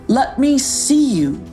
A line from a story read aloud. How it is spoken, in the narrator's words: called out Rufus from below